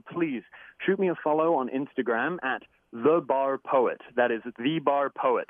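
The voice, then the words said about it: Put-on American accent. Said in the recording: “Excuse the American accent while I do that. When I say it in my English accent, people might not understand me.”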